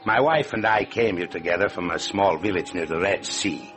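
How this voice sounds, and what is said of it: Speaks with a foreign accent. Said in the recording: “You have noticed my accent”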